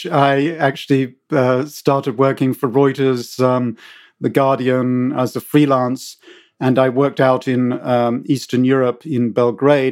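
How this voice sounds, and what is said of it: British accent. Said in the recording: “as you can tell from my accent, I'm British”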